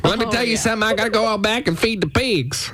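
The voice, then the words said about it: Put-on Southern drawl. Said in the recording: “Southern drawl ... I got a real sexy accent.”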